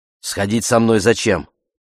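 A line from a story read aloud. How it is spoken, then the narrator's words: Barked reply. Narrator (Russian): Она рявкнула в ответ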